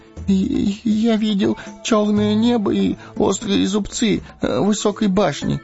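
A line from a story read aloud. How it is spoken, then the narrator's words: Babbling. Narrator (Russian): пролепетал он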